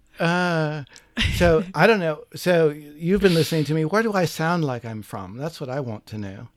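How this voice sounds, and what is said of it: Broadly English accent. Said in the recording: “I would probably just say broadly England”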